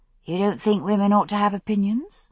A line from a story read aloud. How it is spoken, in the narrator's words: Brianna asked sweetly